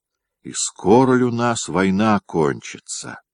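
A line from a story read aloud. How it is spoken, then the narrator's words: Sigh. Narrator (Russian): вздохнул Вишняков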